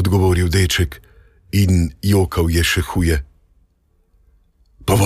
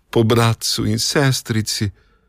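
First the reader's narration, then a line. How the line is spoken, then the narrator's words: Boy sobbing harder. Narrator (Slovenian): je odgovoril deček in jokal še huje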